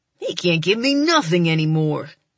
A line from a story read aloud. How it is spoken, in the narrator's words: Drummer sneers